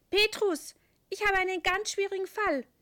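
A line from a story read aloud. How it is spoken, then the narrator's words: Called out. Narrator (German): ruft der Engel seinem Chef zu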